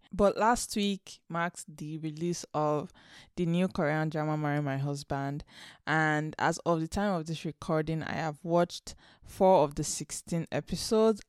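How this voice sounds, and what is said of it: Slightly off, sick-sounding voice. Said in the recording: “I have been sick this week with COVID, unfortunately, and I am just recovering. So if my voice sounds a little off, that's why.”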